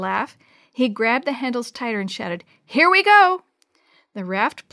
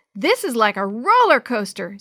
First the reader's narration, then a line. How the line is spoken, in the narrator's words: Sammy hollered